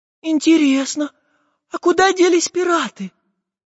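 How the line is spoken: Thin, high-pitched question. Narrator (Russian): тоненьким голосом спросила Настенька

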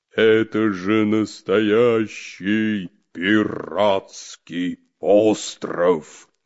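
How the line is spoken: Loud exclamation. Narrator (Russian): воскликнул громко Буль-Буль

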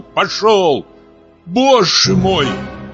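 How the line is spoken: Shout. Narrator (Russian): закричала Марья Гавриловна

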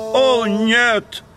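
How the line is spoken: Exclamation. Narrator (Russian): воскликнул Генри

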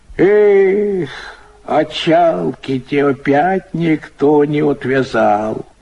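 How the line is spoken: Dull reproach. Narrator (Russian): кончает Тюлин с той же унылой укоризной

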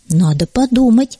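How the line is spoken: Plain. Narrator (Russian): ответил второй

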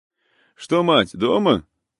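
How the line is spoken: Shout. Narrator (Russian): закричал ему Мурин

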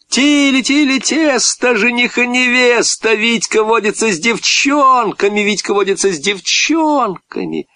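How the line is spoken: Children's mocking laughing chant. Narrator (Russian): Ребята засмеялись

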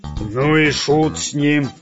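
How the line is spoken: Barked. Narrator (Russian): рявкнул пират Бульбуль

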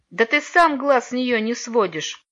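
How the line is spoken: Venomous laugh. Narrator (Russian): ядовито рассмеялся Алеша

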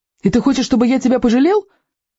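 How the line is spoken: Shouted. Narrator (Russian): крикнул он Стоику

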